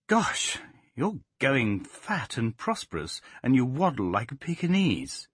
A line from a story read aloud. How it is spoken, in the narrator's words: she exclaimed